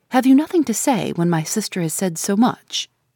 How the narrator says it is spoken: I interposed sharply

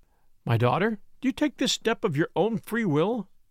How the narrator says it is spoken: asked the minister in a trembling voice

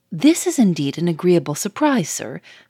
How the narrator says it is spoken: said the manager, cheerfully

